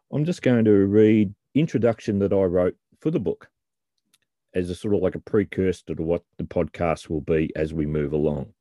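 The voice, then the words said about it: Speaks with a noticeable accent. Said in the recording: “Hope you can understand my accent.”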